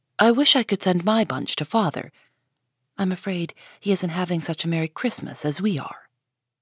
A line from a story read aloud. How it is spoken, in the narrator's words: Beth ... whispered softly